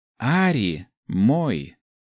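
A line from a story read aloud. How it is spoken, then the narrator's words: Curt, steely. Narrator (Russian): отрезала Нами стальным тоном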